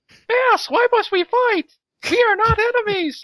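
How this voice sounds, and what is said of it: Mickey Mouse cartoon voice. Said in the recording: “How's that for a Mickey voice?”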